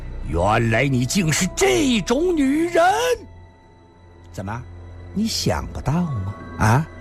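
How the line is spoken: Furious roar. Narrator (Chinese): 阿飞终于爆发，狂吼道

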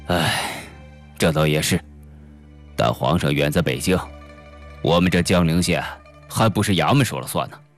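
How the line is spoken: Sighing. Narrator (Chinese): 李狗儿叹了口气说

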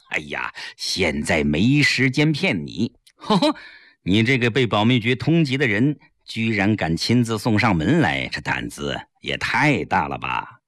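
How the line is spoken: Smiling. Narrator (Chinese): 吴克坚一笑

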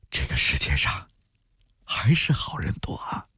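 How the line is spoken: Sighing exclamation. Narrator (Chinese): 毛小妹感叹着

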